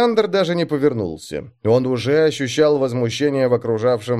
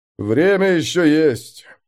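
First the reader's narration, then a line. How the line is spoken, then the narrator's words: Grim. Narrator (Russian): мрачно произнес мастер воздуха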